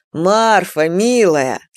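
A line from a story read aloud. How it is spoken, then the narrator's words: Laughing. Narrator (Russian): снова рассмеялся Камышин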